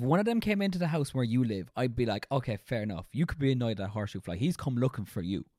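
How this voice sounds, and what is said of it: Usual voice. Nothing is said of it.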